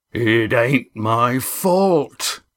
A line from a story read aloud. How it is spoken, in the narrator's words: Roaring Jack began, in what for him was a hushed voice